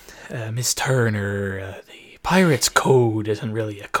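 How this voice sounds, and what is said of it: Pirate character accent impression. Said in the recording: “10 out of 10 accent, by the way. I loved it. Best impersonation... I said that was a fantastic accent”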